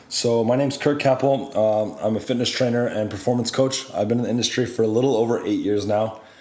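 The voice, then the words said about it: Slightly rough, sore-throated voice. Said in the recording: “just getting over a, a little bit of a sore throat, so my voice sounds a little funny”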